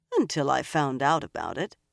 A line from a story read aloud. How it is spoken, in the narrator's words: the Armorland agreed dryly